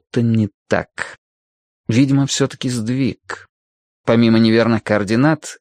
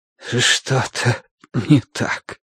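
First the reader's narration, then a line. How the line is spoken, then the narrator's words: Breathless exhale. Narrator (Russian): выдохнул Бадри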